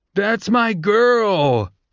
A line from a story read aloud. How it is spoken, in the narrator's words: Pup cried out